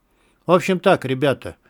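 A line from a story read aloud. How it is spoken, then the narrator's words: Calm tone. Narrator (Russian): проговорил спокойным тоном Кутузов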